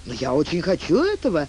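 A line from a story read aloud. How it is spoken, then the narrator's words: Cheerful exclamation. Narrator (Russian): весело воскликнул Лафайет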